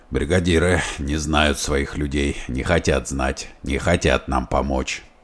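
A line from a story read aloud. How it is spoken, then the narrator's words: Hoarse. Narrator (Russian): хрипло сказал он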